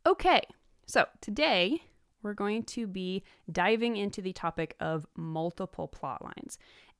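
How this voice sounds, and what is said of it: Hoarse, congested voice. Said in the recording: “as you can probably hear, I'm kind of getting over a cold... my nose is cold, and it's running a little bit... I have a little bit of a frog in my throat”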